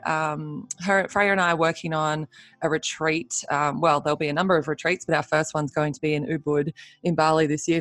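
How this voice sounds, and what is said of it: Slightly croaky morning voice. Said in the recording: “my voice is probably a little croaky”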